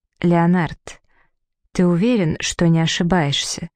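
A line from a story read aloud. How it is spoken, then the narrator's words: Soft gentle. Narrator (Russian): мягко произнесла она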